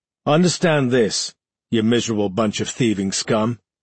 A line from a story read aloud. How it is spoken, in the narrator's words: Mackerel growled